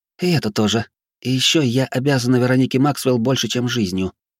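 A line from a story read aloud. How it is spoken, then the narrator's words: Calm. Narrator (Russian): спокойно ответила женщина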